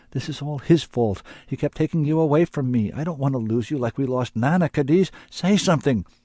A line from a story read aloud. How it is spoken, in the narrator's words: cried